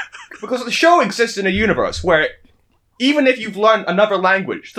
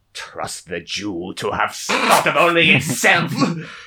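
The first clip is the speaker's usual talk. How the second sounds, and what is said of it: Mock German accent. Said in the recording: “his voice changes ... speak in a German accent”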